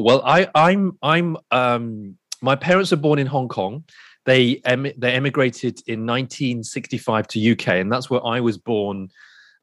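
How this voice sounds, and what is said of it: British accent. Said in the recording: “So I'm British, hence the accent.”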